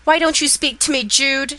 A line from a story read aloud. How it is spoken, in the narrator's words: she cried out